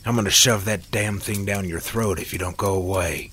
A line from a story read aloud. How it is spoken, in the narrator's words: Sam growled through the pain